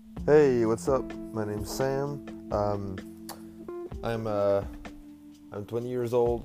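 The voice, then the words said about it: French Canadian accent. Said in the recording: “Yes, I have an accent. I'm French. I'm a French guy from New Brunswick, Canada.”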